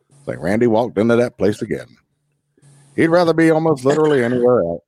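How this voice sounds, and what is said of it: Imitates another person's voice. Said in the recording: “narrating my shit in the voice of Morgan Freeman ... you have a really good voice ... really good radio voice ... That was a really good Morgan Freeman.”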